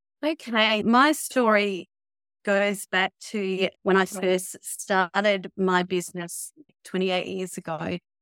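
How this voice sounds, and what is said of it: Australian accent. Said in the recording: “you are in Australia ... I love her accent”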